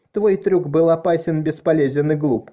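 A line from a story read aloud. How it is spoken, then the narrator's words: Shouting. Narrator (Russian): кричала Морис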